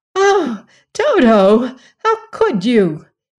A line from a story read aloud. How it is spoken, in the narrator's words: exclaimed Dorothy, much distressed